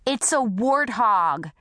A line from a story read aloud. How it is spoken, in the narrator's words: Duke shouted